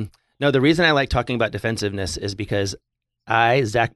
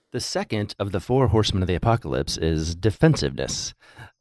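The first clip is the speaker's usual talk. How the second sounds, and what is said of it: Announcer-style radio voice. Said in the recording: “That's my radio voice.”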